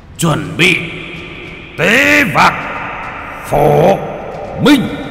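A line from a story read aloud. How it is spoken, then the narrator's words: Shout. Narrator (Vietnamese): quát lên một tiếng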